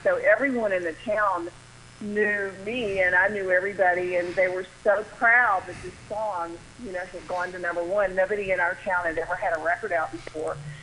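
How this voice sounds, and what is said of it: Southern US accent. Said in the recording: “As you can hear, I'm from the South, I'm from the small town. ... I do hear your Southern accent, I love it.”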